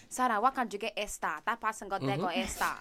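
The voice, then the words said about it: Poor put-on Nigerian accent. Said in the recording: “Your Nigerian accent is really bad.”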